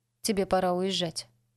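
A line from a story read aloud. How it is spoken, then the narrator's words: Calm. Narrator (Russian): спокойно сказала Бонни дочери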